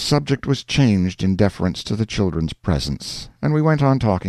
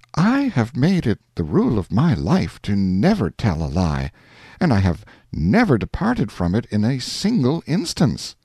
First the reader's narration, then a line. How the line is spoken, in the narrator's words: the lady came warmly back to the matter and said